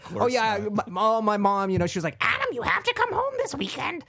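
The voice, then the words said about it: Marge Simpson cartoon voice impression. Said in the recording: “whenever I quote my mother, I do a Marge Simpson impression ... really good Marge ... doing a bad Marge impression”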